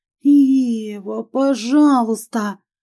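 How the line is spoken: Pleading moan. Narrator (Russian): простонала в мольбе

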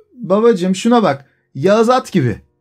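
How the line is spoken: Shouting. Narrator (Turkish): diye bağırıyordu

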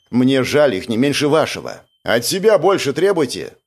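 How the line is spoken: Rude, harsh. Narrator (Russian): грубо обратился к ним Андрей

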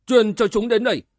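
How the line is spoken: Roaring. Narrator (Vietnamese): Đoàn Phương gầm lên

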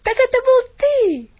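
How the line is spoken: Exclaimed. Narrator (Russian): воскликнул он

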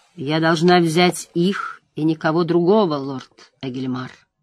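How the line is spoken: Soft. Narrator (Russian): мягко сказала Морейн

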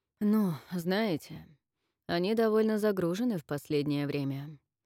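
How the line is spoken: Tired answer. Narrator (Russian): устало ответил спецэксперт

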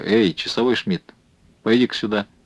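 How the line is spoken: Soft call. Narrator (Russian): он позвал негромко

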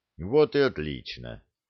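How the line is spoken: Tired. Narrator (Russian): устало проговорил Люк

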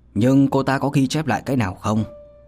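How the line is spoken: Cold voice after pause. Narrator (Vietnamese): Trầm ngâm một chút, thanh âm lạnh lùng quán lại vang lên

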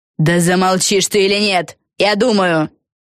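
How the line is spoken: Barking. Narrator (Russian): рявкнула Фелисити Бет

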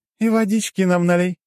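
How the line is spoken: Giggling. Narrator (Russian): хихикнула Лора

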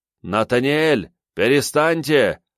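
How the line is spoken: Lion shouting from deck. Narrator (Russian): крикнул мне с палубы лев

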